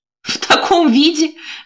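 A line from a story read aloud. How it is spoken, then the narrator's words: Chuckle. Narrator (Russian): хохотнула подруга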